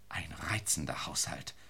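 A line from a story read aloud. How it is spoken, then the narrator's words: Whispered. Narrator (German): flüsterte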